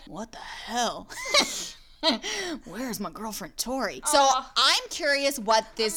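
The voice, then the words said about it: Imitates a TV character's voice. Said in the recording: “Just do your best Joe Keery. Do your best Steve. ... I'll do Steve.”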